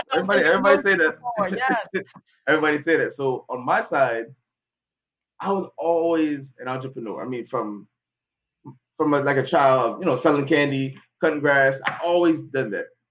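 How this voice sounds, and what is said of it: Jamaican accent. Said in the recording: “I hear that Jamaican accent coming through really? Too.”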